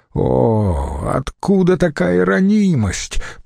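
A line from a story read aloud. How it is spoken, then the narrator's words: Moaning. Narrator (Russian): простонал Децимбрут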